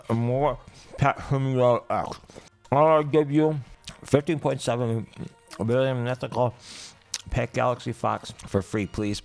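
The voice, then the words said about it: Muffled speech with a full mouth. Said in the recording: “Accent, apple ... read this review with an apple in my mouth”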